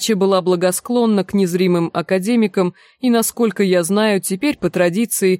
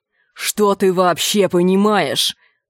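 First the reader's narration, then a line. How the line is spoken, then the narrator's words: Growled. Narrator (Russian): прорычал Энди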